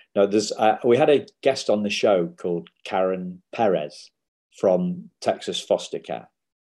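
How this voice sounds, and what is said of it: English accent. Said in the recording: “my English accent or my lack of pronunciation”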